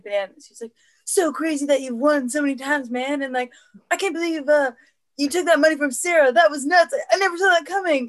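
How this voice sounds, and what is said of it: Excited imitation of another person's voice. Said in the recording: “a really good impression of Jimmy Fallon ... That was really, really close. ... Jimmy Fallon gets so excited for like everything”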